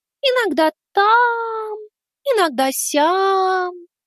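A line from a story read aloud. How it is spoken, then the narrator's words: Drawl. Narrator (Russian): протянула она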